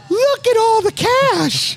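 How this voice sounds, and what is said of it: Imitates another person's voice. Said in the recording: “That's my Fingers Malloy impression. ... Spot on.”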